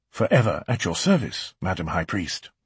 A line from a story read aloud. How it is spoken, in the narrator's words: murmured Aaron, as he'd been taught